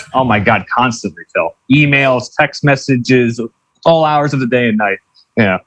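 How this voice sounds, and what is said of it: New York accent. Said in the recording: “you have a New York accent”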